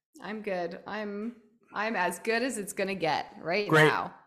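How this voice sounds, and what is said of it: Raspy voice. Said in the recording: “raspy voice. I have my radio voice.”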